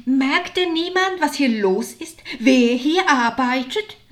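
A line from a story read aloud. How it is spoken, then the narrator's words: Shouted. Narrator (German): rief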